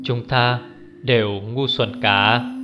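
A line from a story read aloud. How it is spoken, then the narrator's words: Loud laughter. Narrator (Vietnamese): Hoắc Triển Bạch cười lớn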